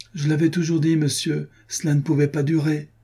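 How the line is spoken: Distressed exclaiming. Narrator (French): s'écria le pauvre garçon

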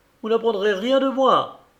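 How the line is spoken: Surprisingly emotional exclamation. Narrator (French): s'écria-t-il avec une émotion qui me surprit

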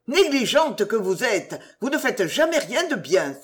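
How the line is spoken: Hostess exclaiming. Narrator (French): s'écria l'hôtesse

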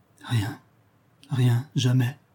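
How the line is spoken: Hushed, muffled voice. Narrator (French): dit-elle tout bas d'une voix étouffée

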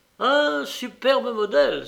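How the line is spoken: Loud exclamation. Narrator (French): s'écria Trevor à pleine voix

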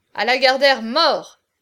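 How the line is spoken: Shouting. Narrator (French): cria Gonzague

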